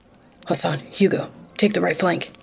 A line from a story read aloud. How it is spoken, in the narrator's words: Agent Hendricks hissed silently